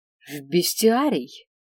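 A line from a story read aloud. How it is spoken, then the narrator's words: Announcement. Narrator (Russian): объявил Свен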